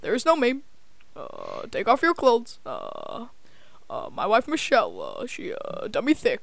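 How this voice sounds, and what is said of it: Barack Obama impression. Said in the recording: “I can do Obama.”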